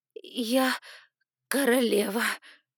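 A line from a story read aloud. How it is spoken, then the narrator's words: Mumble. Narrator (Russian): промямлила Эдосих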